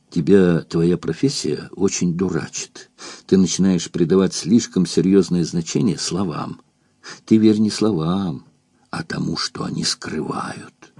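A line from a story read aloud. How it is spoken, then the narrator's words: Quiet. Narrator (Russian): сказал тихонько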